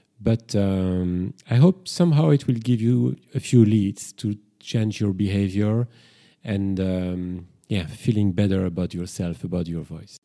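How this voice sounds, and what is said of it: Speaks with a noticeable accent. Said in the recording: “you're getting more used to my accent and my pronunciation”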